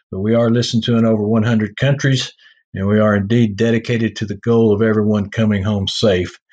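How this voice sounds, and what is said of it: Heavy Texas accent. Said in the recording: “my heavy accent, the Texas accent”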